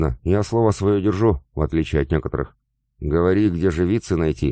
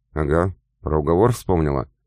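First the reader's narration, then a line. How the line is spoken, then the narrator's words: Scoffing. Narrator (Russian): хмыкнул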